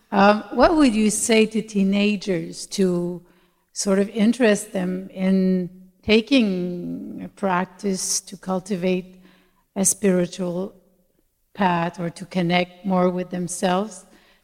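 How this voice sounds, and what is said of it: Québécois French accent. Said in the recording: “I'm from Montreal, so sorry for my accent. ... Québécois.”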